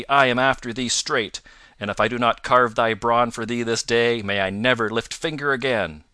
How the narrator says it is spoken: roared he

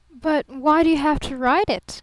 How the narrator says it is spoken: gasped Barton

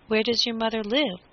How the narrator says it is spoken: asked the squire, in a kindly tone, for he had already forgiven Little Boy Blue

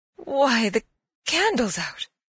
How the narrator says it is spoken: cried

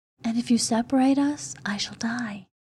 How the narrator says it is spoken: she whispered

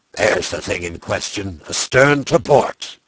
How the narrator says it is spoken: the harpooner shouted

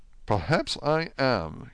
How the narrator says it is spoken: he answered quietly

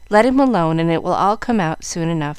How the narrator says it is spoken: answered Frank, who laughed at his brother

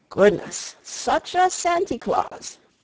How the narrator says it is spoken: exclaimed with a final sigh of pleasure

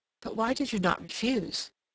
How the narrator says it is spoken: Some, the frankest, murmured

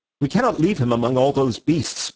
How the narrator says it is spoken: cried Sime

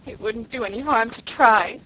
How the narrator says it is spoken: sobbed Felicity

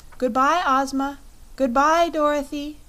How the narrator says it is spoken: cried a voice they knew belonged to Polychrome

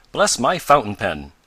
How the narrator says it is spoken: exclaimed Mr

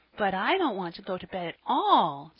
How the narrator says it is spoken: said the child anxiously

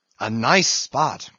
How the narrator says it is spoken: cried Flask

